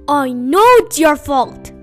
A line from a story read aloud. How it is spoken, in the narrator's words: said Badger furiously